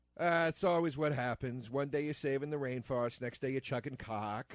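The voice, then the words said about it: Poor imitation of another person's voice. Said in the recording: “my shitty Walken impression ... I wasn't trying that hard”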